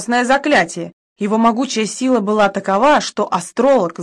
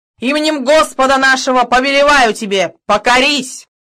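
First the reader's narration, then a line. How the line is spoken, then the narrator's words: Loud commanding order. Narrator (Russian): громким голосом приказал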